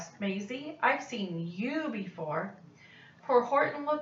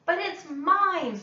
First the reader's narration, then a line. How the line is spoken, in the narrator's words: screamed the bird when she heard the egg crack